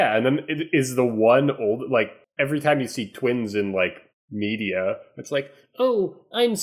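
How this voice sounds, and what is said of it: Usual voice. Nothing is said of it.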